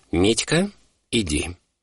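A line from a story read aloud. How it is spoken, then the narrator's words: Quiet, over the phone. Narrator (Russian): позвонила по телефону и тихо сказала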